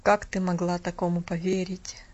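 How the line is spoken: Hoarse voice. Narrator (Russian): сказал он жене хриплым голосом

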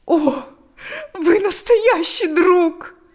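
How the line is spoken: Speaking, then sobbing. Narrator (Russian): сказала она и разрыдалась

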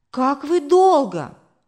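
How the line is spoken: Exclaiming. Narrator (Russian): воскликнула мама

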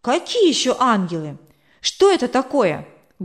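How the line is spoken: Loud question. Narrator (Russian): громко спросил Коля

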